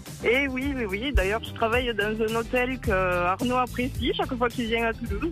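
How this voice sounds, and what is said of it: Toulouse southern French accent. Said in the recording (French): “ce petit accent de toulousain qu'on aime”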